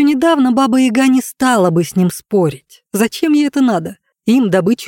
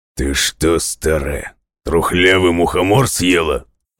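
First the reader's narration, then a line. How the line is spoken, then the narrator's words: Growl. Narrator (Russian): Рыкнул серый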